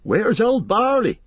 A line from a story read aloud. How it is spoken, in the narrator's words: they cried